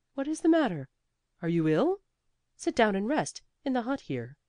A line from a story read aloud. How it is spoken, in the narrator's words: so startled by her looks exclaimed